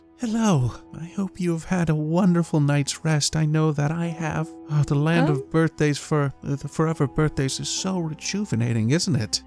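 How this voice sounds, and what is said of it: Less creepy character voice. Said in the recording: “That's less creepy. Thank you. Less creepy voice.”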